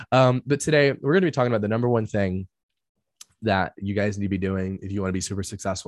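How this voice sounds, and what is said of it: Slightly hoarse voice. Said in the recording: “my voice is a little bit kind of hoarse right now because I was sick on Monday”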